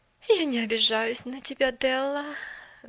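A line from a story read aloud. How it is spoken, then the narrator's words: Sighing. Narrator (Russian): вздохнула мисс Керри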